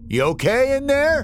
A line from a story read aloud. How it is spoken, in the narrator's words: Wallace called out